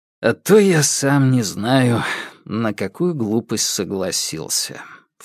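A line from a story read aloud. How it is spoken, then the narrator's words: Low grumble. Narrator (Russian): вполголоса проворчал Фальк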